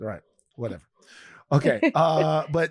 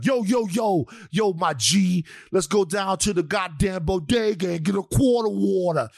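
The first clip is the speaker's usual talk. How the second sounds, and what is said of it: Exaggerated put-on blaccent street slang voice. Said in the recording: “she's also been criticized for using a blaccent ... you expect her maybe to just have your regular American accent. All of a sudden, she's like”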